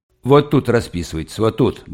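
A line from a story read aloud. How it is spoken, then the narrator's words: Scrawny man grumbling. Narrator (Russian): бурчал плюгавый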